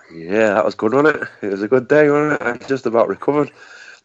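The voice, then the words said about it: Hoarse, partly lost voice. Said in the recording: “I lost my voice a bit, and I've been struggling since Sunday, but I'm just gradually getting it back now.”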